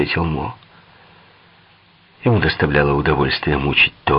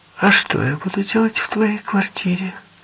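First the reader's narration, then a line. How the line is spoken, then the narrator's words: Sighing. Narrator (Russian): Тоя вздохнул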